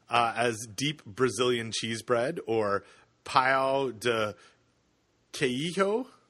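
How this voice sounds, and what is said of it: Poor put-on Portuguese accent. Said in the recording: “That's really Portuguese. ... that was in my best Portuguese accent. ... which is not very good ... It's terrible.”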